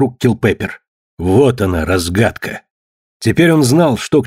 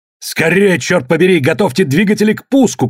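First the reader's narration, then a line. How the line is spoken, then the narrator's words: Urgent shouting. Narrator (Russian): кричал он ошарашенным людям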